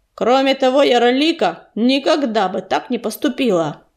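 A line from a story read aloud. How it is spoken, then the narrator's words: Angry bark. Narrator (Russian): рявкнул Крутобок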